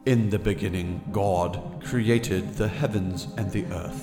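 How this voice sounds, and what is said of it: Put-on British accent. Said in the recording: “we need is British people saying... See, then it sounds better.”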